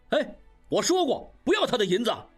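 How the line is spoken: Angry shout. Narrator (Chinese): 应余愤怒地大叫

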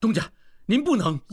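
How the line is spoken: Hurried, stopping someone. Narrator (Chinese): 王宗宇 急忙阻止

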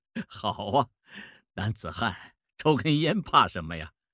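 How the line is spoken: Laughing. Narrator (Chinese): 孟梅笑了，说

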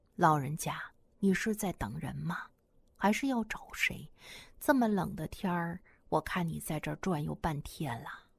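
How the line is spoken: Gentle woman's question. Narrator (Chinese): 一个女同志的声音，轻声地问她

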